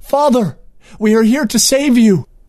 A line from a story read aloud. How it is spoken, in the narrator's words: Princess Semlidor exclaimed